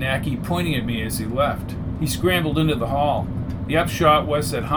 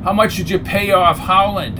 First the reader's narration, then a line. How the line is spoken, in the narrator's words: I yelled at Addie